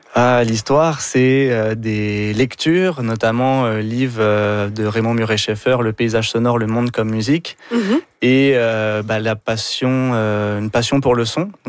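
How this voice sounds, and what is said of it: French accent from France. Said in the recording (French): “on le devine avec votre accent, vous êtes d'origine française”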